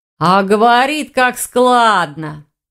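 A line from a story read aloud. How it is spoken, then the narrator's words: Drawling student. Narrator (Russian): протянул второй старшекурсник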